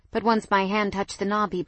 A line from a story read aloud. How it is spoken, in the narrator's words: he blurted